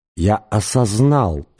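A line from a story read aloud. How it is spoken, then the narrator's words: Hissing. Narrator (Russian): прошипел голос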